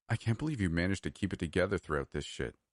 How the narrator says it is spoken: he muttered, a hint of respect in his tone

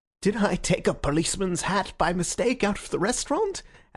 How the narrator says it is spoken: asked Syme, smiling wildly

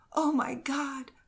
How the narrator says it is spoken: cried the woman in the greatest anguish

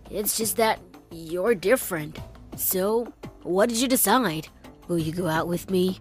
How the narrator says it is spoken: he mumbled uncertainly, and then added

